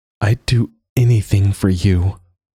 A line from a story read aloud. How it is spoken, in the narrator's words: said aloud, her throat tight and her voice cracking